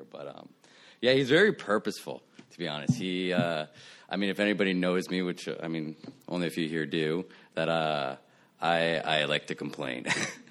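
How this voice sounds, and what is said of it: Slightly raspy voice. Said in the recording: “my voice is a little raspy because I'm just getting over a cold”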